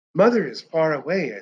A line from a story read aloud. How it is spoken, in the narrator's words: I said softly